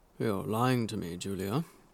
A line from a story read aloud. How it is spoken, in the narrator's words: says quietly